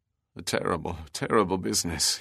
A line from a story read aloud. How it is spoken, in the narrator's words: muttered